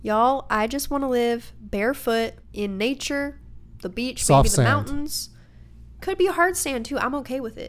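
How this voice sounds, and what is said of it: Southern American accent. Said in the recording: “I am sorry if I'm offending anyone who has an actual Southern accent. I just start talking like this without thinking about it”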